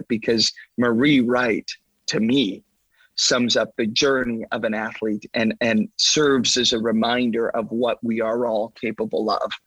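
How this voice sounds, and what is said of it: Emotional, choked-up voice. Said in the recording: “I'm getting emotional talking about it”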